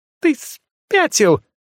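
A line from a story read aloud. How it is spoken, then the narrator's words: Startled shriek. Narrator (Russian): взвизгнула Альха, едва успев увернуться от случайного языка огня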